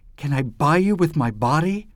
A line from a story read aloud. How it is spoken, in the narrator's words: cried angrily